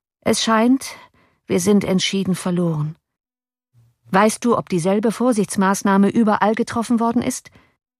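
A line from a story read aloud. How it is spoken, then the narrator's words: Calm. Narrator (German): sagte Cornelius ruhig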